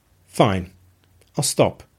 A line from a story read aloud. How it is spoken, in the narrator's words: she said in a controlled voice